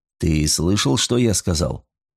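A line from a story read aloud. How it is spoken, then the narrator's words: Soft question. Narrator (Russian): Николсон мягко спросил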